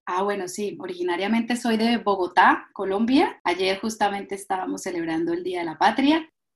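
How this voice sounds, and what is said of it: Colombian Spanish accent. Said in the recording (Spanish): “Me encanta tu acento.”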